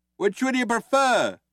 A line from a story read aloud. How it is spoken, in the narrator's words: shouted Ford